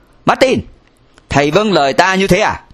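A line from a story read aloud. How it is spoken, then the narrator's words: Stern. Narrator (Vietnamese): Cha liền nghiêm nghị nói với thầy Martin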